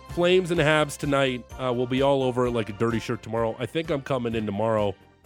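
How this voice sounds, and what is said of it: Rough, worn-out voice. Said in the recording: “Did my voice last? It still sounds very rough.”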